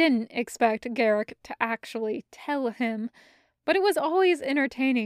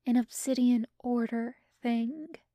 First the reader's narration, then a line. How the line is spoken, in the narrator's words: leaned closer and whispered